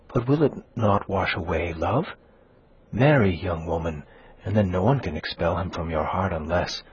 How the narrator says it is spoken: she added, whispering

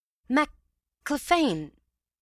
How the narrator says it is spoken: said I hastily

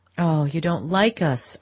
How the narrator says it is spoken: Archer exclaimed

